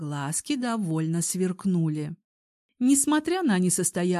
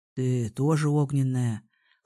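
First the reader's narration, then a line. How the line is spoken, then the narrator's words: Young man's snort. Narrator (Russian): хмыкнул парень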